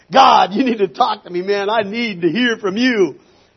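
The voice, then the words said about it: Raised, louder voice. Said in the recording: “raising my voice.”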